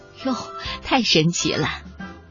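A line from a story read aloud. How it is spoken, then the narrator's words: Delighted amazed exclaiming. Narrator (Chinese): 爸爸妈妈开心的不得了，他们会惊叹的说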